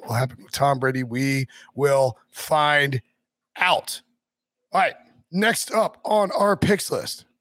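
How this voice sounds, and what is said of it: Hoarse, strained voice. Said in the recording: “my voice is gone... to lose my voice”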